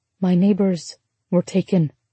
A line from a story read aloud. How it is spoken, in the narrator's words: Ruby said softly